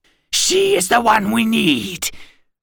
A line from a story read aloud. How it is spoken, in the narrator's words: The other Daraka hissed